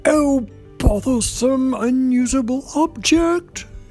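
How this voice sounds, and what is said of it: Annoyed crying mermaid voice. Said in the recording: “she cried in her most annoyed voice.”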